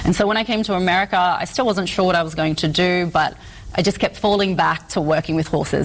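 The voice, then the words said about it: Australian accent. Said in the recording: “my accent's a little funny, and so I'm from Australia”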